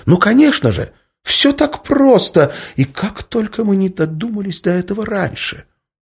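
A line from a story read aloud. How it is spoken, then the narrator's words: Exclamation. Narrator (Russian): воскликнула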